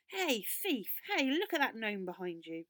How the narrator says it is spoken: He shouted loudly

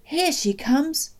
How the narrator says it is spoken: my father called out

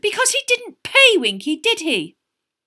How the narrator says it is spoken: said Hermione, her voice rising shrilly

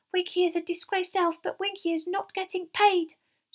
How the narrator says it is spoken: she squeaked

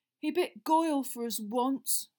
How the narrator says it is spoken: Ron said miserably

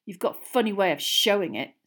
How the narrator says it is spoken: sneered Ron

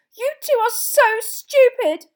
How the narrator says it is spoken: she shouted, tears splashing down her front

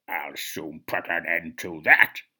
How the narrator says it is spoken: hissed the angry spider

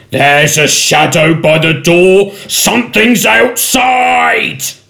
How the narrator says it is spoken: Suddenly one of the goblins shouted

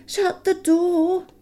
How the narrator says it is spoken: he begged them

